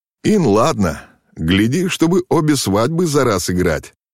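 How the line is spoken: Young prince laughing. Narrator (Russian): засмеялся юноша-князь

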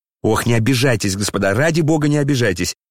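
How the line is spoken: Frightened exclamation. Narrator (Russian): Испуганно вскричал князь

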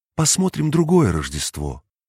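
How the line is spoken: Thoughtful, smiling spirit. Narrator (Russian): Дух задумчиво улыбнулся, говоря

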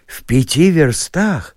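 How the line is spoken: Agitated exclamation. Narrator (Russian): воскликнул Чичиков и даже почувствовал небольшое сердечное биение

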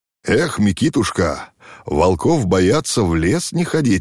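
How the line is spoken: Laughing. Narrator (Russian): рассмеялся Ермак

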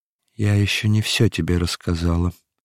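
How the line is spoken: Trembling voice. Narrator (Russian): продолжала юстиция дрожащим голосом

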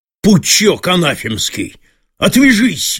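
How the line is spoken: Sudden furious bark. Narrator (Russian): гаркнул он вдруг, бешено сверкнув глазами

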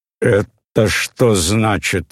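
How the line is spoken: Said menacingly. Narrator (Russian): сказал грозно Кирилл Петрович

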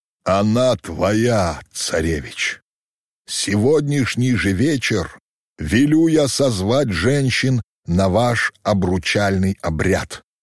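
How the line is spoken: Solemn, weighty. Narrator (Russian): торжественно и веско произнес Кучум

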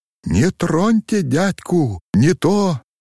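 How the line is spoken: Wild frantic cry. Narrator (Russian): Не помня себя Алеша дико вскрикнул

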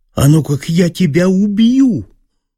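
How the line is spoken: Sudden shout. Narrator (Russian): крикнул он вдруг

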